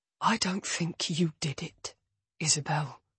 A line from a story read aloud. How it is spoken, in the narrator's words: he whispers into my ear